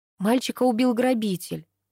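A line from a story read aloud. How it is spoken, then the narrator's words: Sighed. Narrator (Russian): вздохнула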